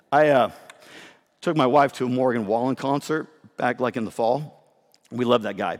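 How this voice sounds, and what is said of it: Hoarse, breathless voice. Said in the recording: “I'm losing my voice at the same time ... I'm like winded up here ... I just got to get my breath here”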